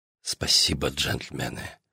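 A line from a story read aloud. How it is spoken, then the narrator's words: Whisper. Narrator (Russian): шепотом говорю я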